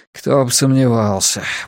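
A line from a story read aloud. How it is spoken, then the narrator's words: Grumbling mutter. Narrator (Russian): буркнул Рекс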